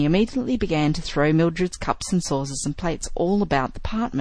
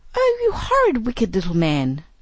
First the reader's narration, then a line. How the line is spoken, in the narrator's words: cried Mildred